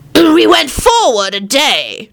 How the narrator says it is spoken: John shouted

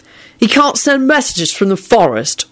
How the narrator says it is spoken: William snapped angrily, as if they all should have known this

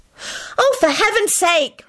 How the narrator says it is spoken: Hermione yelled

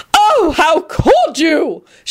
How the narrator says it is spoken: She wailed and began sniffling loudly

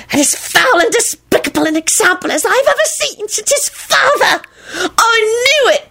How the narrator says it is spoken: Timothy shrieked delightedly

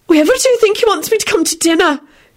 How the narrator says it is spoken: Beatrice said in a shocked voice

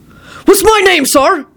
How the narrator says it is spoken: began shouting again

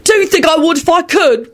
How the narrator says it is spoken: William yelled back furiously

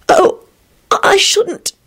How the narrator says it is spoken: she protested feebly

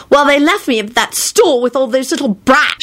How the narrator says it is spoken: she finished angrily

